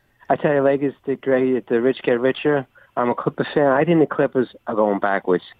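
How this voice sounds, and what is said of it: Noticeable regional accent. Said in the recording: “I know my accent confused your producer.”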